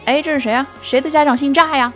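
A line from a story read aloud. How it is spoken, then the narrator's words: Teacher calling out loudly. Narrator (Chinese): 班主任老师在全班喊说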